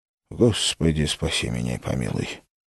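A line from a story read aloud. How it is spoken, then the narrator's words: Barely audible whisper. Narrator (Russian): едва слышно прошептал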